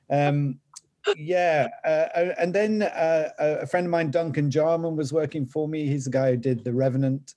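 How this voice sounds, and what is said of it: Northern English accent. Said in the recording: “my Northern English accent”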